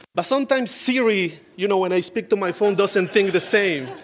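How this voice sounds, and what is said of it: Noticeable non-native accent. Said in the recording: “the second thing that I got to apologize is my accent ... my best accent. So if you can lower your expectations and you can go with me on my accent”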